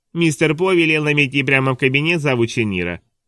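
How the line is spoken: High shrill mimicry. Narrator (Russian): передразнил мужчина высоким пронзительным голосом

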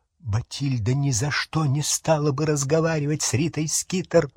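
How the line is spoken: Whisper. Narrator (Russian): прошептал Дож

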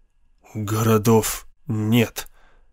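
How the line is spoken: Hoarse. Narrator (Russian): хрипло произнес Райан

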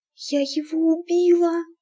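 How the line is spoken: Whispered. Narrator (Russian): прошептала она

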